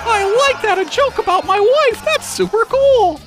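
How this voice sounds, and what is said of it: Cartoon character voice. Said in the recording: “bad cartoon impersonation”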